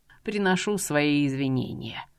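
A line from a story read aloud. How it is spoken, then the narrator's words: Man sighing. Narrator (Russian): вздохнул мужчина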